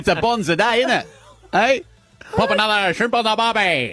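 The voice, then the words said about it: Exaggerated Ocker Australian accent. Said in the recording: “such a distinct accent that I wouldn't forget the Ocker accent ... Am I that ochre?”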